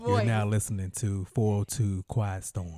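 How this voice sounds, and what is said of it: Smooth quiet storm radio voice. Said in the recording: “you in this quiet storm of voice ... You in this quiet storm voice.”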